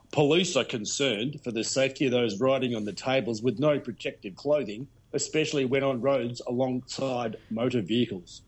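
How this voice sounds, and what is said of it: Put-on Australian police accent. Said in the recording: “I have to put on my special Australian police accent”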